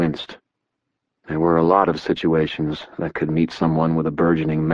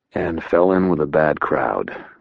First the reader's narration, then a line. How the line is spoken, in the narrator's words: I said quietly